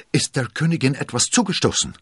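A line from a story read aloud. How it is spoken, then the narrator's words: Breathless shout. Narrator (German): rief keuchend entgegen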